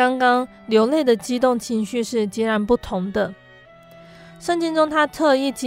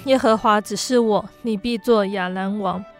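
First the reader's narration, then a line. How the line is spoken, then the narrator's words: Calm, flat. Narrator (Chinese): 先知他只有淡淡的说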